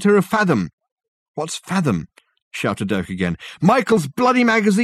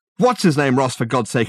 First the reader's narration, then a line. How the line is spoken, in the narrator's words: exclaimed Richard